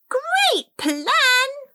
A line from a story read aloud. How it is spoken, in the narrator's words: Alfie exclaimed